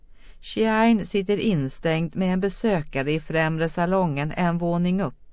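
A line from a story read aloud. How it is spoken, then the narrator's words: Calm. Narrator (Swedish): sa hon lugnt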